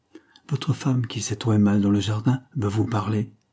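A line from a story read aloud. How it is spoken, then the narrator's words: Director's curt reply. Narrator (French): répondit sèchement le directeur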